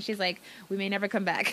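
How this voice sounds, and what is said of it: Fake accent imitating someone. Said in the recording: “I just gave my mom a fake accent. She doesn't have the accent.”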